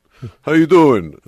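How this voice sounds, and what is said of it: Thick put-on New York accent. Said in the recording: “impenetrable New York accent”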